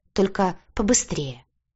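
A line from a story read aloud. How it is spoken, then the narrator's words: Irritated demand. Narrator (Russian): раздраженно потребовала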